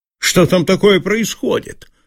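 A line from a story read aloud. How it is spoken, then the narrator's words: Commanding, bossy tone. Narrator (Russian): спросил он свойственным ему начальственным тоном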